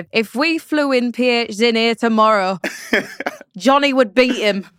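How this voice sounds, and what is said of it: Impression of commentator Richard Buckley. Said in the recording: “I had to do it in Buckley's accent, not my own”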